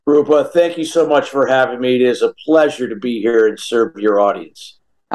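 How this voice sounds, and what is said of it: Pleasant radio-style voice. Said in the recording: “you've just got this very nice radio voice.”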